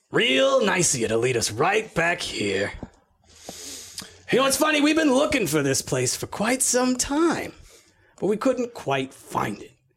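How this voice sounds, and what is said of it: Character voice with an accent. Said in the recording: “you used that same accent for a lot of them ... This is not the same accent. This is a different accent.”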